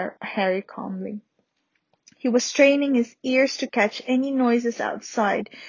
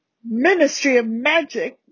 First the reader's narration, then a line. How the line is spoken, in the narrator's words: bellowed Uncle Vernon